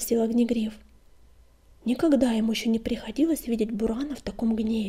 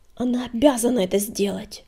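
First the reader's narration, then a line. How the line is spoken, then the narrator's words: Hissing warrior. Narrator (Russian): прошипел воин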